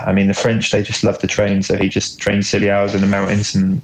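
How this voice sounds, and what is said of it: British accent. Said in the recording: “British accent”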